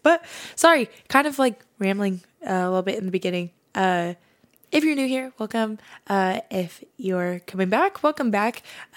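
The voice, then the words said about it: Slightly raspy voice. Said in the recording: “my voice is kind of like a little raspy, ... even though I think it kind of sound a little cute, it's because I've been screaming and up really late the past few days.”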